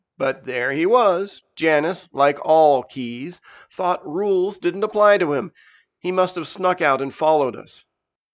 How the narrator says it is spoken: groaned Urtish

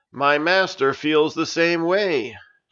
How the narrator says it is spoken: Janice loudly proclaimed

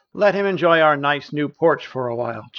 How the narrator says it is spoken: chuckled Tara

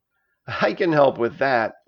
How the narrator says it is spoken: laughed Stavius, who was feeling better

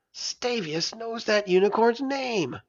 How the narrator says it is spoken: Narayana hissed to Versara

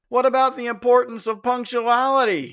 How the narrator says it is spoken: shouted Janus

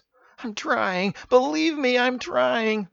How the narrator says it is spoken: Mark cried

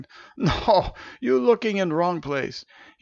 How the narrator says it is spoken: he chuckled

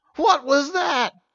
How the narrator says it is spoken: shouted Steven in spite of himself

